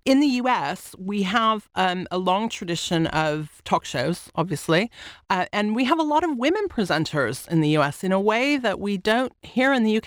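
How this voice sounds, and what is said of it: American accent. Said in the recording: “people can hear from your accent you're American”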